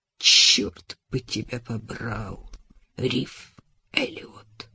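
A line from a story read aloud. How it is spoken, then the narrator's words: Whisper. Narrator (Russian): прошептала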